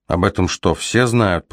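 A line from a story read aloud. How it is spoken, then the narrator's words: Grumble. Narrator (Russian): проворчал он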